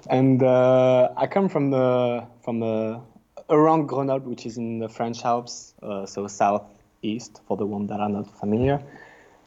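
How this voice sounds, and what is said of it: French accent. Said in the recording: “I'm French, as you can guess with the accent”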